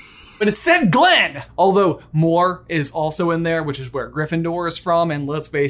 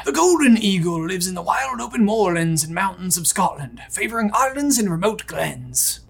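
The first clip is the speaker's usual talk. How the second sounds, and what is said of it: Weak imitation of a nature-documentary narrator. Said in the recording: “That was my best impersonation of David Attenborough. It wasn't very good.”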